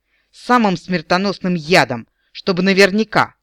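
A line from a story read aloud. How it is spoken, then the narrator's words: Solemn promise. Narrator (Russian): торжественно пообещал Эрин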